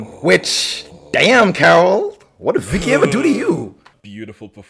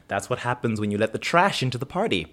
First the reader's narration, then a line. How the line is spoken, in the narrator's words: Carol Carol leans over and whispers in her son's ear